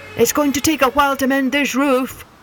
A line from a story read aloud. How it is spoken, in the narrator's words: yelled Fireman Jim